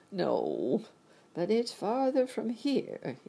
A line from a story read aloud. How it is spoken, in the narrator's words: he said, shaking his head at her sadly